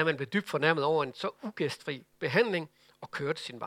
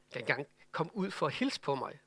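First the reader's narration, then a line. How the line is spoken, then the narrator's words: Angry mutter. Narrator (Danish): mumlede han vredt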